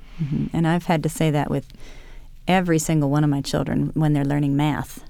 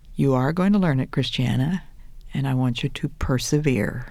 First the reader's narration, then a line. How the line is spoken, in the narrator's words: said very calmly and quietly